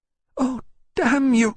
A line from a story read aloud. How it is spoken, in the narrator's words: she cried at last, crackling with anger